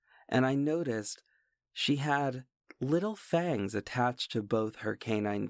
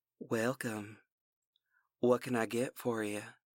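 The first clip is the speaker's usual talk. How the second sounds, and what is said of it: Dusky female voice, Louisiana accent. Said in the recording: “Her voice was dusky, and I detected the Louisiana accent”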